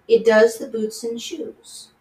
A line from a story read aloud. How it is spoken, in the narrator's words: replied very solemnly